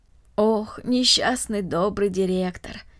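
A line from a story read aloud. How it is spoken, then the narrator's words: Sighing. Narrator (Russian): вздохнула Марта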